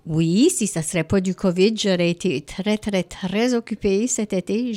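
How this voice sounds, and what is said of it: Acadian French accent. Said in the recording (French): “mon accent de Baie-Saint-Anne ... Tu as un accent de la mer”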